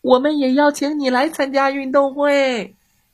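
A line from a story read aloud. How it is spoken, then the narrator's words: Calling from behind. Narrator (Chinese): 老鼠只好在后面喊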